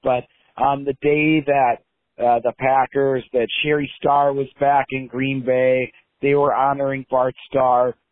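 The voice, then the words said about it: Slightly hoarse voice. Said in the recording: “my voice is a little hoarse. It was from me shouting at the TV for the last 3 hours”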